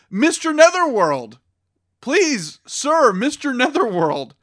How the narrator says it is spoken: we both yelled out

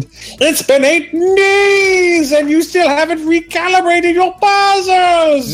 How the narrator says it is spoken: Sounded like it belonged to Skeletor, yelled

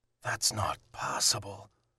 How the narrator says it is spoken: Lucas said, just a whisper

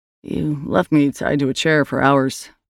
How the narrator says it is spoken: Aaron said

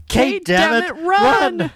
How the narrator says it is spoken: Jack yells

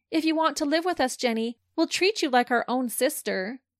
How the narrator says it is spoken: She then looked at Jenny and said loudly enough for all to hear

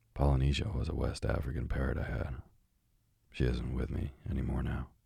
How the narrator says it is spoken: said the doctor sadly

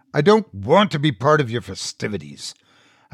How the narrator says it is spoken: growled

